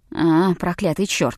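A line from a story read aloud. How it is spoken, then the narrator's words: Cursing mutter. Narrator (Russian): забормотал Леклер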